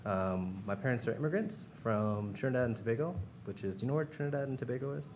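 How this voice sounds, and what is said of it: American accent. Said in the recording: “I'm American, as I'm sure you can tell from my accent.”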